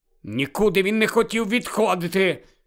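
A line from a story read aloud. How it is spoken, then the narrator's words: Angry, curt. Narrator (Ukrainian): сердито відрізав Гаррі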